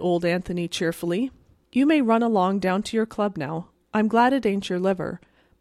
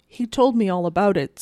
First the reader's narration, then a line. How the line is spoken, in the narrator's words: said Brother Anthony, yawning